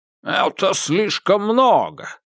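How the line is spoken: Exclaiming. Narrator (Russian): воскликнул один из советников

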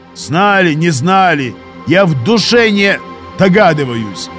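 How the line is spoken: Barking. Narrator (Russian): рявкнул сержант

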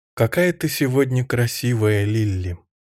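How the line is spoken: Affectionate. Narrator (Russian): Дороти Мэллоун ласково сказала

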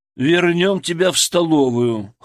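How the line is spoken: Snorting. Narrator (Russian): хмыкнул Ян Амосыч

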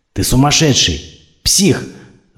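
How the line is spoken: Hissed. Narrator (Russian): зашипел Сеич

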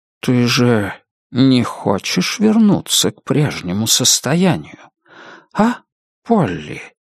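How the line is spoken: Soft silky question. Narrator (Russian): мягким шелковым голосом спросил мистер Гонт

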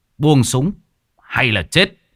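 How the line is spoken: Cold. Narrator (Vietnamese): Hùm Xám lạnh lùng

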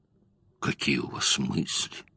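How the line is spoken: Sad reply. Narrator (Russian): ответил Гирланд, грустно

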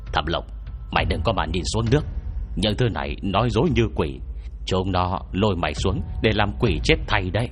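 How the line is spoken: Stern. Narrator (Vietnamese): Lưu Văn Tam nghiêm giọng bảo

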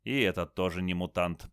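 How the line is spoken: Mutter. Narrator (Russian): пробормотал Крас

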